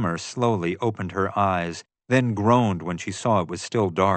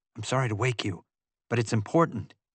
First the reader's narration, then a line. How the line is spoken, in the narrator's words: I said softly